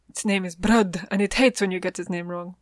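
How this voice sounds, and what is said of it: Put-on Spanish accent. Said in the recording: “I don't know why I said that in, like, a Spanish accent.”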